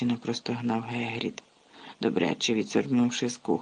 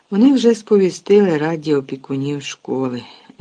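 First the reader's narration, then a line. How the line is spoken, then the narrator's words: Unhappy sigh. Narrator (Ukrainian): зітхнув нещасний Гегріт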